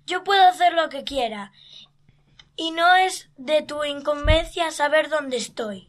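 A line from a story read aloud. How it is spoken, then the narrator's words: Shouting reply. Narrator (Spanish): respondió Artie gritando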